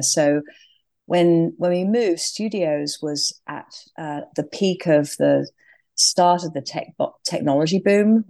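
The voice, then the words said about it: English accent. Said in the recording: “clearly from my accent, I started in England”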